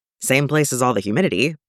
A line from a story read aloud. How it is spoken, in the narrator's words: Locke suggests